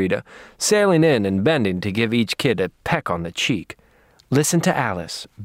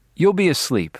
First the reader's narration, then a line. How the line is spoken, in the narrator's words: I said